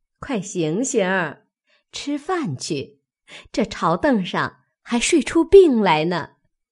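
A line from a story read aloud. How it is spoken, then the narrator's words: Amused group teasing. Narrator (Chinese): 众人笑 说道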